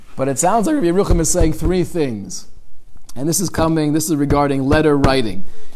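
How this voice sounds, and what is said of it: Hoarse, strained voice. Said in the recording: “I'm losing my voice over here.”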